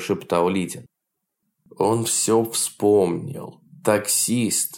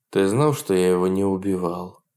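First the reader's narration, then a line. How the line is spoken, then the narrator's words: Calm question. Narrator (Russian): спокойно спросил Лидин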